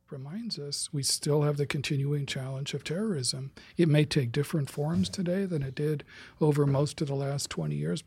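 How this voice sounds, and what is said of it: Soft, soothing ASMR-like voice. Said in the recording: “Damn, he has a great ASMR voice. I'm falling asleep right now.”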